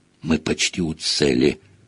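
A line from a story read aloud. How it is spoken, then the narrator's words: Sudden feverish whisper. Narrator (Russian): вдруг лихорадочно зашептал Рон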